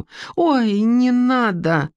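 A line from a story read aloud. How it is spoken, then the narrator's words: Alarmed exclamation. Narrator (Russian): воскликнула Эстер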